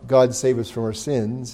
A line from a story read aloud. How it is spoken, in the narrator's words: sadly